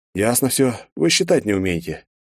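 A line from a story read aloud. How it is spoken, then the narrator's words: Heavy sigh. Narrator (Russian): тяжело вздохнув, подвел я итог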